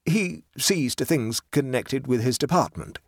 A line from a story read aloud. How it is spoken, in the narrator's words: said Harvey